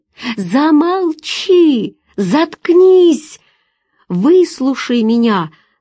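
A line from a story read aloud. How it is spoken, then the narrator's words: Shouted reply. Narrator (Russian): Закричал в ответ Владимир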